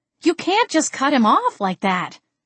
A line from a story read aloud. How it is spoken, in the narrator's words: I exclaimed